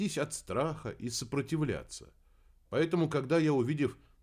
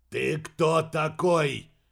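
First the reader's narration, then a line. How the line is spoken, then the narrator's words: Barked again. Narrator (Russian): Еще раз рявкнул Кеннет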